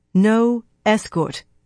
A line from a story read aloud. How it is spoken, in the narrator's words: Elaine said firmly